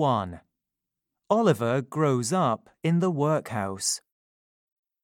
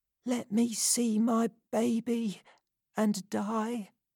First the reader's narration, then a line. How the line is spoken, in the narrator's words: she whispered